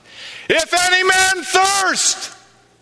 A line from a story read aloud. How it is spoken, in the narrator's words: Jesus with a loud voice cries out